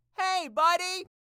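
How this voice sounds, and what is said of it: Casual yell across the street. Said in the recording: “Here's a casual yell like you're trying to talk to someone across the street.”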